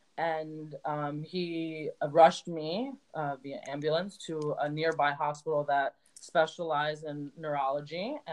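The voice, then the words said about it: Emotional, shaky voice. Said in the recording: “my voice sounds like a little whatever. I'm just getting emotional”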